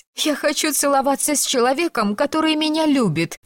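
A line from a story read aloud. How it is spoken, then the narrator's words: Sobbing. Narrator (Russian): всхлипнула она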